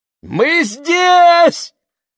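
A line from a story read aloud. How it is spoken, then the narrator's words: Shouted. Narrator (Russian): закричала она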